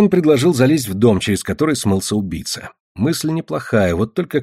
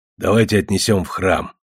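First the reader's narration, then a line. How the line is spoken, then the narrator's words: Grumbling raven. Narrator (Russian): проворчал ворон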